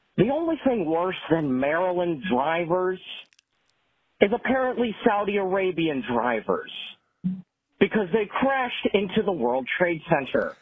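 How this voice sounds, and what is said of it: Imitates another person's voice. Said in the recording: “my impression of Tom Myers ... That was a good Tom Myers impression.”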